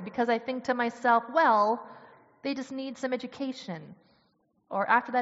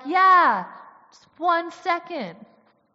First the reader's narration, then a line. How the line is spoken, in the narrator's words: they yelled back